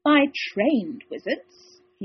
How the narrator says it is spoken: he added with a sneer

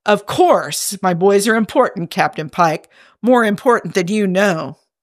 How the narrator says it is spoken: Commander Kirk sputters

